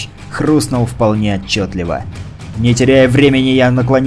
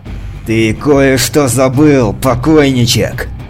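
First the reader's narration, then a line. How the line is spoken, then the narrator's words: Roar. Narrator (Russian): проревел я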